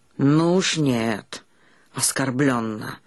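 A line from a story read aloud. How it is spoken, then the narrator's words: Old man refusing. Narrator (Russian): отказался старик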